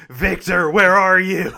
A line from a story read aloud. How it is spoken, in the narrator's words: just shouts